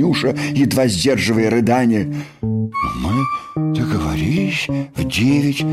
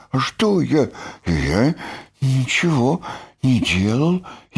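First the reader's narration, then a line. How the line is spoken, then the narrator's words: Frightened whisper, just woken. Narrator (Russian): испуганно прошептал окончательно проснувшийся Бараш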